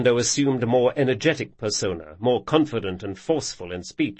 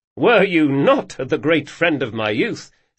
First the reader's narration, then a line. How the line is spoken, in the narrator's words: said Locke, deciding a laugh would be a good thing to add